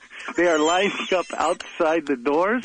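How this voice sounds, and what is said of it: Put-on Russian accent. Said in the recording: “Where's the accent? ... That is Russia. ... It was fading there for a minute ... We just wanted to remind you that you were Russian.”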